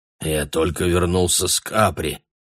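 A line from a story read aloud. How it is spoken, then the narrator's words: Hoarse. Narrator (Russian): произнес он хрипло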